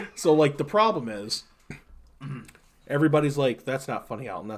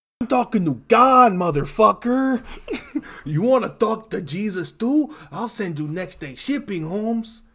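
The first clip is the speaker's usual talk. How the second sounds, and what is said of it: Put-on Hispanic accent. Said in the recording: “doing an impression of himself ... I fancy myself Hispanic”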